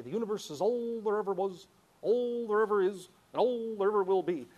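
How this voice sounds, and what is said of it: Imitates another person's voice. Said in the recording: “my Carl Sagan's impersonation”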